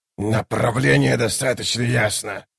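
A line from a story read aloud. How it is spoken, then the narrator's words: Growled. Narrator (Russian): прорычал Баргаст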